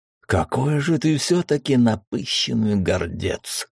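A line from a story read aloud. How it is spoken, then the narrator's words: Furious, through gritted teeth. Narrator (Russian): в бешенстве процедил он сквозь зубы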